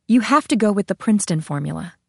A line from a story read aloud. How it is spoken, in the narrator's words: She said firmly